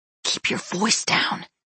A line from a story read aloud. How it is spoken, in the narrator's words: he hissed